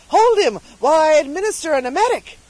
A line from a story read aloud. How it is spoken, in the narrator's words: the surgeon cried eagerly